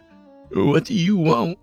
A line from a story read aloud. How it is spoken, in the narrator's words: I asked as I openly sobbed